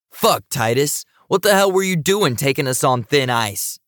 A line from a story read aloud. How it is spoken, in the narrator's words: Cage yelled